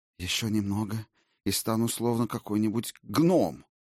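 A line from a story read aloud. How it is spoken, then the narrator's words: Groaned. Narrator (Russian): простонал, наконец, Ульвейн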